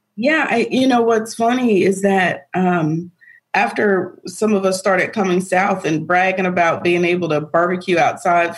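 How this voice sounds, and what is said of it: Southern drawl mixed with New York accent. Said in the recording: “It's kind of a southern drawl with a New York accent mixed into it. So that's what makes it sound a little different ... I've definitely developed my own drawl”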